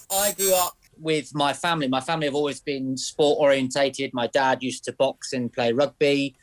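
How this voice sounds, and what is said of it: Plymouth West Country accent. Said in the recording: “originally from Plymouth, if you don't recognise the twang”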